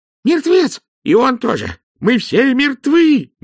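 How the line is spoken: Sudden yell. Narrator (Russian): мигом завопил казначей

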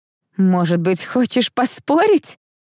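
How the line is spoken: Laughing. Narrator (Russian): рассмеялась принцесса

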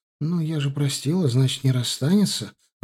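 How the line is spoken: Timid guess. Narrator (Russian): робко предположила она

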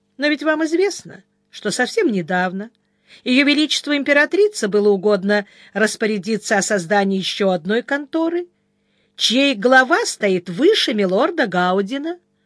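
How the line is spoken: Calm. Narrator (Russian): Сварог спокойно сказал

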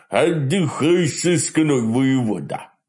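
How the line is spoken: Dull deep bass. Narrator (Russian): глух пробасил хозяин, тот самый бородатый тип

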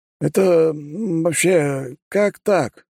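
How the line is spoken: Forced out, stunned. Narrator (Russian): выдавил из себя директор

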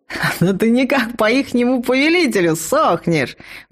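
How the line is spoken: Delighted yell. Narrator (Russian): Восхищенно завопил он

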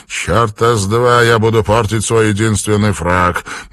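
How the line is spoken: Gloomy mutter. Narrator (Russian): мрачно пробормотал Кристиан Токс

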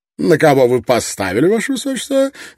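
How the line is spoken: Cheerful question. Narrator (Russian): весело спросил Лонгстафф у князя

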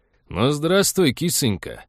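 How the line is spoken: Cheerful loud bark. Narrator (Russian): весело гаркнул толстяк

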